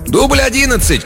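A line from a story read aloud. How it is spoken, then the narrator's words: Shout. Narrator (Russian): крикнул ассистент режиссера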